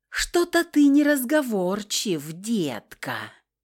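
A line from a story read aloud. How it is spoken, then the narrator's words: Mocking breathless drawl. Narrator (Russian): Издевательски протянула я, совершенно не пытаясь скрыть прерывистого дыхания и тихих стонов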